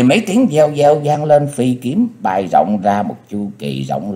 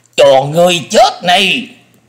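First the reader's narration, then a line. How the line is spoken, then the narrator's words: Thunderous roar through pain. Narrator (Vietnamese): Thủ trưởng cắn cơn đau, gầm vang một tiếng động trời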